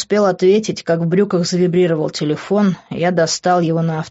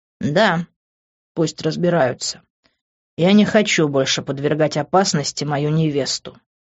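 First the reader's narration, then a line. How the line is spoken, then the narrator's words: Menacing. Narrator (Russian): грозно сказал я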